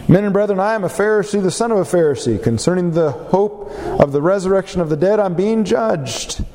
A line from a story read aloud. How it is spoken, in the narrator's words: Paul perceived that one part were Sadducees and the other Pharisees, he cried out in the council